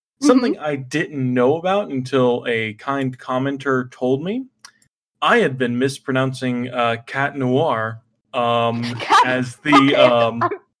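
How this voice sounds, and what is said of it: American accent. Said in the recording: “as you can probably tell by my accent here, you know, I'm a good hot-blooded American fella”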